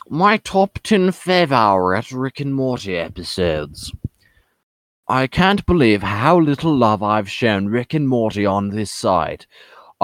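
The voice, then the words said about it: Put-on British accent. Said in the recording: “So I'm going to read this whole article in a British accent.”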